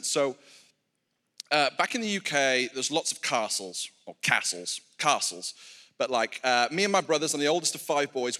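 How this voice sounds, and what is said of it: British accent. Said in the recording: “I'm, I'm, from the UK. You might be able to pick up on that from the accent.”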